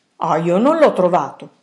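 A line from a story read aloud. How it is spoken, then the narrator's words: Curt, offended woman. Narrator (Italian): rispose la vicina seccamente, come se fosse offesa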